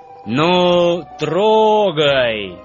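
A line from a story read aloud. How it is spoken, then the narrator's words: Loud command. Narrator (Russian): громко скомандовал главный вожак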